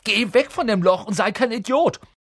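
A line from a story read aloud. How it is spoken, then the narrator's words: Sudden scream. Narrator (German): schrie Ron auf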